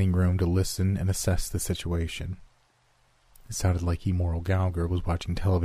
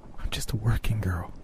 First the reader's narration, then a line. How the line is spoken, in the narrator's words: she whispered, shaking mightily